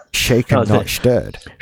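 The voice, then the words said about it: Sean Connery impression. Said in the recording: “I nearly fell into trying to do that in a Sean Connery voice. ... Did it in the end anyway.”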